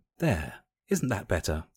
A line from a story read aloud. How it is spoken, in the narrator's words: purred sexily